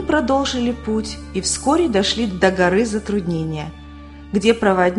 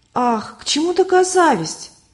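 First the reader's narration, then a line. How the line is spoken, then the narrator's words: Exclaiming. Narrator (Russian): воскликнула Любовь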